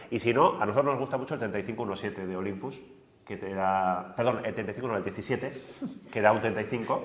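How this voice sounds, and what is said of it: Nasal, congested voice. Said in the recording (Spanish): “Ahora se te está poniendo voz, de nasal, ¿no?”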